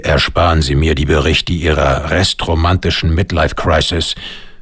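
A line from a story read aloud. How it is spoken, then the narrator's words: Brusque interruption. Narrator (German): unterbrach ihn Erdmann schroff wie eh und je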